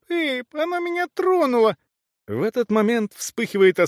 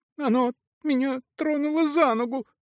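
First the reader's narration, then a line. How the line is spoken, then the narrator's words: Whimpering little one. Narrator (Russian): проскулила крошка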